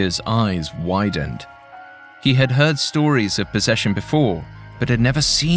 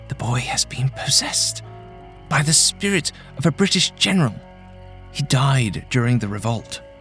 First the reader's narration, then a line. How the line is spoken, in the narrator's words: she whispered